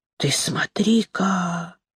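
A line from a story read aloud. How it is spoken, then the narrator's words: Quiet surprised young man. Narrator (Russian): тихо удивился молодой парень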